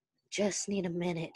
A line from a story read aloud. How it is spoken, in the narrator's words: breathed out